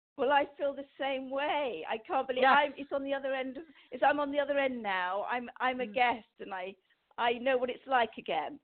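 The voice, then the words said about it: Lovely foreign accent. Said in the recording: “that lovely accent of yours”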